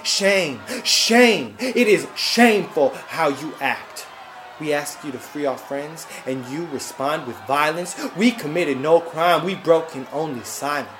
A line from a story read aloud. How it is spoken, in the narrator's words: We shouted